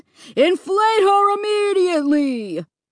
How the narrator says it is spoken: growling and grumbling menacingly

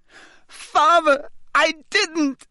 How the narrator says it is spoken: shrieked the boy in chains below

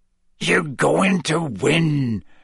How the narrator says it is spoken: Hagrid growled

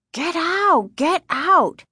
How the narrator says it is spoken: Casey screamed

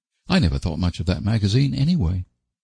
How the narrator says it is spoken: said Diana hotly

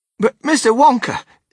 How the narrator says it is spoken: stammered Grandpa Joe

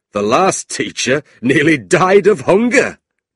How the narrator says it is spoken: John laughed

